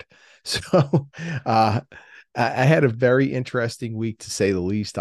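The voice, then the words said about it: Tired, exasperated voice. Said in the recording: “I sound a little tired ... if I sound a little exasperated”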